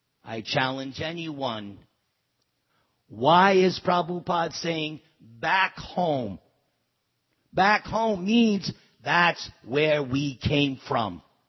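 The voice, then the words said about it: New York accent. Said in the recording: “you can tell by my accent. Oh, he's from New York.”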